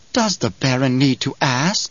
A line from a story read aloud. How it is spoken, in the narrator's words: Piter whispered